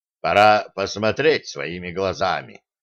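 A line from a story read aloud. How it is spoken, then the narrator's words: Muttering. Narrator (Russian): пробормотал он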